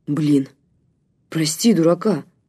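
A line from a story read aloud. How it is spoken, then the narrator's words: Mumble. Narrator (Russian): пробормотал Громов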